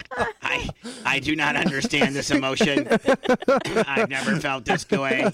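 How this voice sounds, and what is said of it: Imitates another person's voice. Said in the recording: “I was trying to get you to do an impression of me.”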